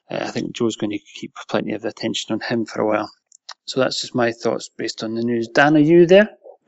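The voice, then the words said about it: Strong, hard-to-understand accent. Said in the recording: “It's your damn accent. ... I'm from England, only down the road, and even I can't even understand him most of the time.”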